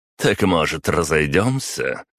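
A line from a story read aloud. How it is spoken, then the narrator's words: Scoffing grunt. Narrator (Russian): хмыкнул аристократ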